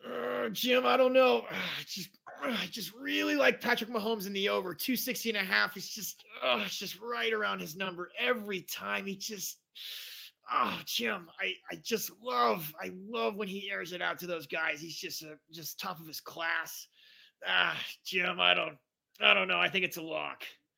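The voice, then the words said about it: Impression of Tony Romo. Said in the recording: “me do an impression? ... What would Tony Romo say?”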